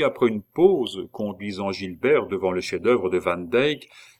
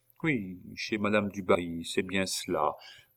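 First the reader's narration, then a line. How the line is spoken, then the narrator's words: Murmured. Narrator (French): murmura Louis XVI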